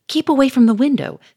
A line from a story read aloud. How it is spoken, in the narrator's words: snapped Charolais